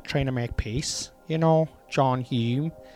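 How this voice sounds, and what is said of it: Put-on Northern Irish accent. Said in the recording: “That's my Northern accent.”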